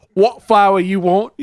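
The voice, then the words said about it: Put-on British street seller accent. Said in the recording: “I'm a classic British flower salesman on the street ... You ever see My Fair Lady? That's what I'm doing.”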